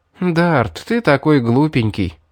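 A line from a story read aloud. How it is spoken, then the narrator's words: Sighing. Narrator (Russian): вздохнула Мэри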